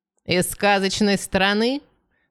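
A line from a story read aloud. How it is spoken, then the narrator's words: Loud question. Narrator (Russian): громко спросила Франни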